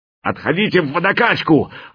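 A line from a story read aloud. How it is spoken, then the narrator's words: Bellowing. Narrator (Russian): орал слон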